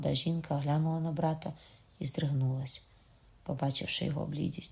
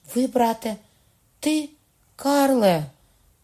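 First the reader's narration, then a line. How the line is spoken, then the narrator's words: Sharp cry. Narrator (Ukrainian): скрикнула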